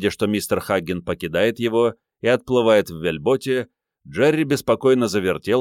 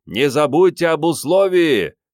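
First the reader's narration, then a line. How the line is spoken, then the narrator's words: Shouting. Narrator (Russian): крикнул Том Хаггин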